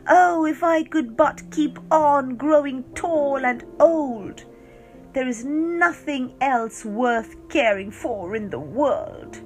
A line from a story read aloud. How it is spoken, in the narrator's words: it would exclaim